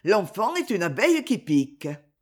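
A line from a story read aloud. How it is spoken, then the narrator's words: Laughing merrily. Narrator (French): dit-il en riant gaiement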